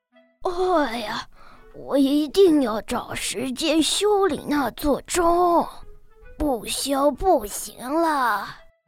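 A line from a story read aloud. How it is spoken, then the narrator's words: Muttering to himself. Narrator (Chinese): 老板就会喃喃自语地说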